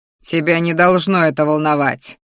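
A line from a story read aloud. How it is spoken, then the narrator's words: Growled. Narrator (Russian): Вновь рыкнул он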